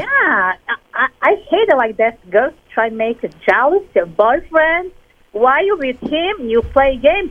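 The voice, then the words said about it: Speaks with a cool accent. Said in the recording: “She has a cool accent.”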